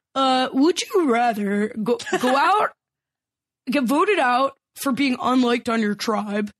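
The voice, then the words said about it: Poor impression, sinister horror-movie-like voice. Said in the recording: “This is not a good impression. This is like the voice from Saw or something. ... the Jeff Schroeder impression”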